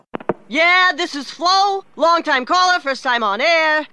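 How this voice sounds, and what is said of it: Sports talk radio caller voice. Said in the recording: “my impression of someone calling into Sports Talk Radio”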